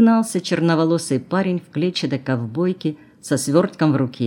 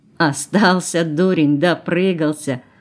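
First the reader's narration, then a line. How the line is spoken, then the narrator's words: Laughing. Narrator (Russian): засмеялась блондинка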